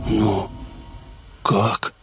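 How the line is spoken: Whispered question. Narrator (Russian): шепотом спросил Матиас

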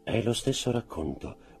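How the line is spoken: Jeweler's murmur. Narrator (Italian): mormorò il gioielliere

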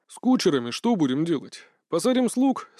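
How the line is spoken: Plain. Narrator (Russian): спросил он

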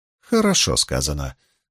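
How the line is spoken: Dry remark. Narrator (Russian): сухо заметила Магеддин

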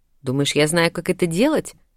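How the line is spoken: Snapping retort. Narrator (Russian): огрызнулась

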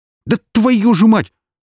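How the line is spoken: Startled cry. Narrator (Russian): вскрикнул Бондаренко, отшатываясь назад

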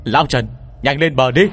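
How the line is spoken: Joyful shout. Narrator (Vietnamese): Tôi vui mừng hét lớn

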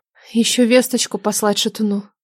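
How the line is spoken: Gentle reminder. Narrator (Russian): мягко напомнила Нелада

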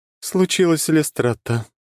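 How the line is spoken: Sighing. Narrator (Russian): вздохнула Темная

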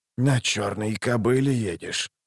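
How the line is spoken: Muttering. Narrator (Russian): пробормотал он

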